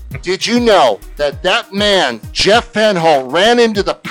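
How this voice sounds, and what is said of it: Usual voice. Nothing is said of it.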